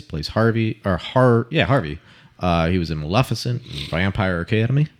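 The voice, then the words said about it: Put-on Southern accent. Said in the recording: “I don't know why I had to say that with a Southern accent.”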